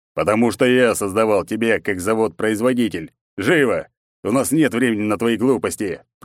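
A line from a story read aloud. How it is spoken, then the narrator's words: Growled. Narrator (Russian): прорычал он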